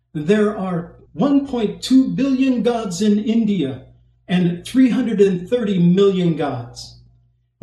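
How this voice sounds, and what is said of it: Put-on Indian accent. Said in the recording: “forgive me for trying to do my best Indian accent here”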